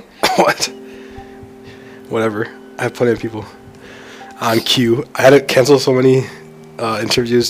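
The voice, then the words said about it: Sick-sounding voice. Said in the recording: “you can kind of tell by my voice that I'm a little sick ... I don't want people to hear my voice sound pathetic”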